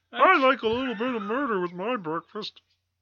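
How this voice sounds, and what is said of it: Imitates another person's voice, muppet-like. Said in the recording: “my imitation's bad. I'm making him sound like an old. ... He's making him sound like a muppet.”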